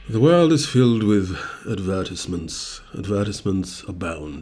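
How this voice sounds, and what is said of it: Put-on accent. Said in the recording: “Why the accent? ... I'm just trying to spice things up”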